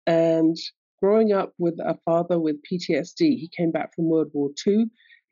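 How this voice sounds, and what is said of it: London English accent. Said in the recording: “I grew up in London, England, as you can tell from my accent.”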